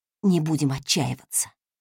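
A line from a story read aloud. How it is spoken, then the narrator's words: Whisper, teacher. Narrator (Russian): прошептал учитель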